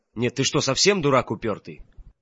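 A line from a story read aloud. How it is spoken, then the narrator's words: Irritated. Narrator (Russian): раздраженно подступил мой предок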